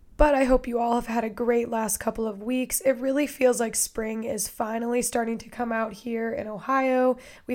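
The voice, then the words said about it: Raspy, strained voice. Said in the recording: “has a very raspy voice this week ... I lose my voice at the drop of a hat ... sound like I've been screaming at a concert”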